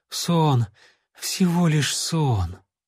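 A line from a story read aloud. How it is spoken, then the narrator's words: Relieved joyful whisper. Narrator (Russian): юнец с радостным облегчением прошептал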